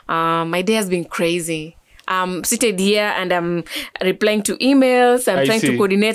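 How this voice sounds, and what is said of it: Kenyan-sounding East African accent. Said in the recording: “your accent though... You come off like as if you're coming from West Africa, and also like as if you're a Kenyan... I think it's very Kenyan. I literally, it sounds South African, kind of... it's not Ugandan.”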